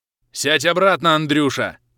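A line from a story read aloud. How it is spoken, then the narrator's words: Growl. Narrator (Russian): Рыкнул я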